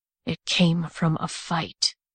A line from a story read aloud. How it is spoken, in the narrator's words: he murmured